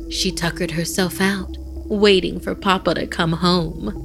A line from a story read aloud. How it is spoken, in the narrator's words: Mariana chuckled